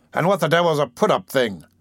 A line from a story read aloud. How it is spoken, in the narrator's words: demanded the doctor impatiently